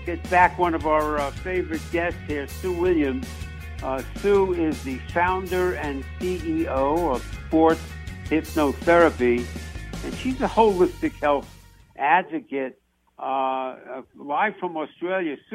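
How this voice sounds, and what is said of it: New York accent. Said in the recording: “we like to compare accents between, you know, me from New York”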